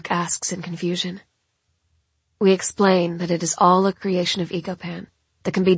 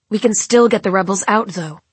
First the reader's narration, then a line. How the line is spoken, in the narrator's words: Lachlan says